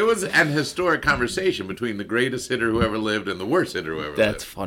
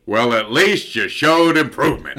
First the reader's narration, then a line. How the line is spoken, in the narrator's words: Ted John Wayne Williams bellows